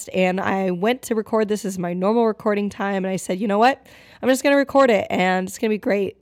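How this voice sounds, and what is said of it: Hoarse voice. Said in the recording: “I am hoarse I mean, hoarse is like the last thing you want for a podcast”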